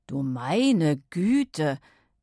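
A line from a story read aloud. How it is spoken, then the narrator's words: Repeated stammering. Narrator (German): stammelte ihr Vater immer und immer wieder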